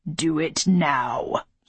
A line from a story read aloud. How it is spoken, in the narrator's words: he growled